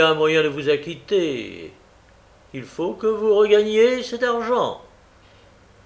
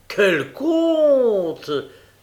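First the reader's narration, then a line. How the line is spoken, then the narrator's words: Exclaiming. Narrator (French): s'écria Hertmann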